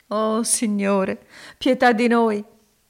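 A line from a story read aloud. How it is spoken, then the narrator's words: Sobbing exclamation. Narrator (Italian): esclamò Elisa singhiozzando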